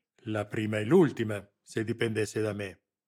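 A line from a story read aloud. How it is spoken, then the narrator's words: Growl. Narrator (Italian): ringhiò Lamberti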